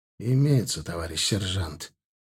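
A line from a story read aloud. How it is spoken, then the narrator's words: Gloomy. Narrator (Russian): мрачно проговорил я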